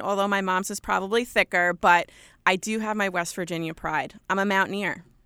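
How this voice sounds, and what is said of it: Thick New York accent. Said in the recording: “I'm from Long Island. I have a thick New York accent”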